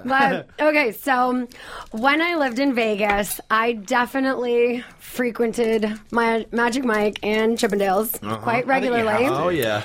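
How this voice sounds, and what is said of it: Slightly hoarse voice. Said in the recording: “My voice is a little hoarse.”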